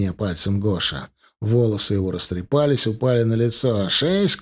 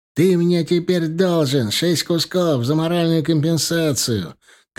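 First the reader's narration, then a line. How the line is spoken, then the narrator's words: Shouting. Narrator (Russian): закричал Гоша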